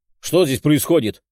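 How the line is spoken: Demon's bark. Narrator (Russian): рявкнул демон

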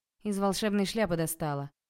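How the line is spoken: Smirk hiding fear. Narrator (Russian): Хмыкнула, стараясь не показывать страха

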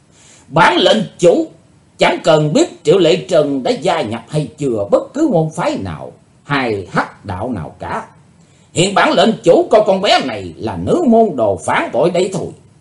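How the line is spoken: Loud laughter. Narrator (Vietnamese): Hải Âu Quái Khách trố lên một tràng cười lớn

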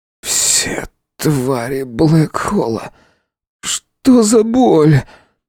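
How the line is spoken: Hoarse wheeze. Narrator (Russian): просипел парень

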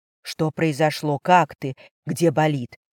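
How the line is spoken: Whisper. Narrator (Russian): шептал он

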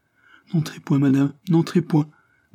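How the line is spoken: Stammered. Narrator (French): balbutia-t-elle

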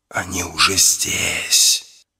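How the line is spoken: Hissing voice in head. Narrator (Russian): зашипел голос в голове

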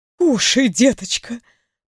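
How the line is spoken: Tender whisper. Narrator (Russian): прошептала она

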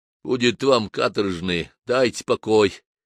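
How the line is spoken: Sick man's moan. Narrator (Russian): простонал больной кавказец

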